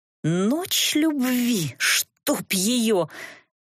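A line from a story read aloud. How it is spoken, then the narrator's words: Angry hiss, suppressed laughter. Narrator (Russian): сердито шипела я, пытаясь одновременно удерживаться от мата и смеха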